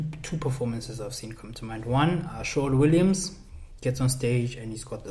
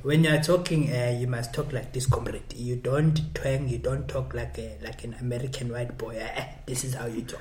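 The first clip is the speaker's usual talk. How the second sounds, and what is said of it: Put-on South African accent. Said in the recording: “I love speaking in accents ... this South African political accent”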